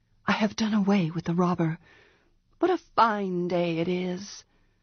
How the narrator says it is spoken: said in a low voice

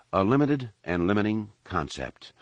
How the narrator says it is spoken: Luke replied calmly

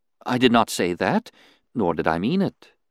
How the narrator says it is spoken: she responded soothingly

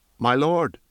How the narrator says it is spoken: Aaron said, and his voice was steady now

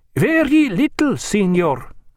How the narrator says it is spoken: said the master in a foreign accent

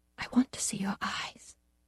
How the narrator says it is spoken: whispered

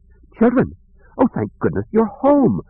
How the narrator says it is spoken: cried

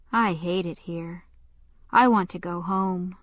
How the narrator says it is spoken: He sighed and finally said

